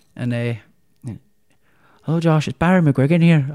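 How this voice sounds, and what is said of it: Put-on Irish accent. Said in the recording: “So that's my attempt at Irish accent.”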